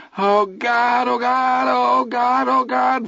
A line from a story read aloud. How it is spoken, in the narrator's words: Vern cried